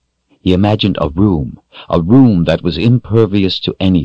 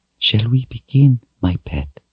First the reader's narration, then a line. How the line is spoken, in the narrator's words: she whispered